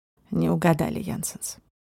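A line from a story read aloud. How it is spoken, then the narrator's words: Sigh. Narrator (Russian): вздохнул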